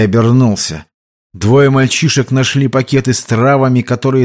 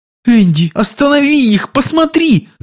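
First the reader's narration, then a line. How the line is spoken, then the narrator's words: Shouting. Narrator (Russian): закричала Ширли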